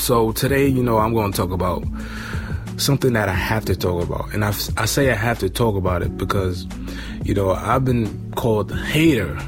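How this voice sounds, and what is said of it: Sick, strained voice. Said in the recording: “Excuse my voice today because I'm a little sick.”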